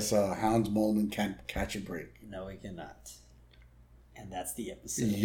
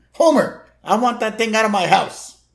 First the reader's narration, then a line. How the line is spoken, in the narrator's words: Marge yelling